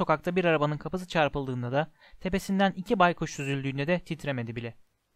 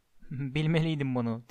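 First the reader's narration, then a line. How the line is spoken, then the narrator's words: Muttered. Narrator (Turkish): diye mırıldandı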